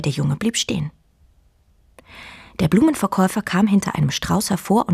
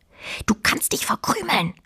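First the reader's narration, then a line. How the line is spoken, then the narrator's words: Quiet hiss. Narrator (German): zischte Fine leise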